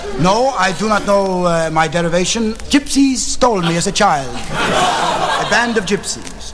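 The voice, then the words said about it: Greek accent. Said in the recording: “you have a Greek accent”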